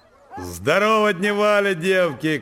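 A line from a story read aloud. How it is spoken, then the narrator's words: Strong ringing shout. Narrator (Russian): крикнул он сильным, заливистым голосом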